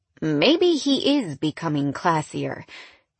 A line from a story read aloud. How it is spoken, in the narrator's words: Damien laughed